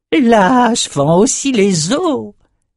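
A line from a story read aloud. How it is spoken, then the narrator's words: Pleased exclamation. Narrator (French): s'écria Crieux tout content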